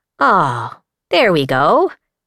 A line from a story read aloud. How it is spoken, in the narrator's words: Mosscap said happily